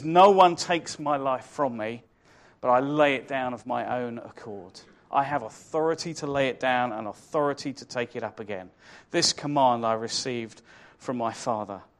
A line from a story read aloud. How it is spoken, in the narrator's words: he says